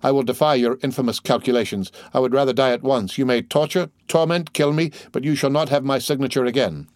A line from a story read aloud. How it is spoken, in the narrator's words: cried Danglars